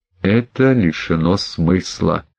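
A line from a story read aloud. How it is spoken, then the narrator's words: Mutter. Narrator (Russian): пробормотал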